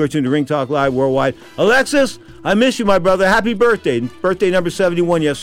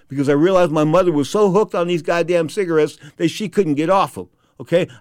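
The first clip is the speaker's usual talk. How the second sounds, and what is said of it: Emotional, choked-up voice. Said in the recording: “Did I get emotional there? Yeah, I guess I did.”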